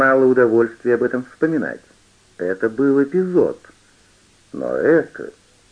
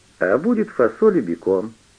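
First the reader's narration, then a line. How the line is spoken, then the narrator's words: Plain. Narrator (Russian): сказала она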